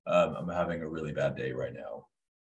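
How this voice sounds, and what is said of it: Deliberately deeper voice. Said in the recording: “my voice gets deeper.”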